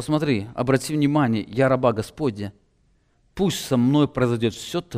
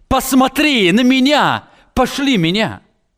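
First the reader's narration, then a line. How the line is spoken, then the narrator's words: Exclaiming. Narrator (Russian): Он не сказал, он воскликнул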